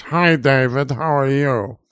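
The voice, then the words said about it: Nasal imitation of another person's voice. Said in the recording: “doing an impression of Conrad Vachon, our high school principal ... he talked very nasally like this”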